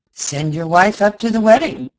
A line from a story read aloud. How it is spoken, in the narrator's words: exclaimed the doctor, foreseeing a happy solution